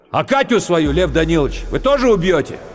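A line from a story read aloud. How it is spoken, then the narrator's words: Drunken parting shout. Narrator (Russian): Пьяный, дерганный походкой Романецкий, уже почти вырвавшись из квартиры, крикнул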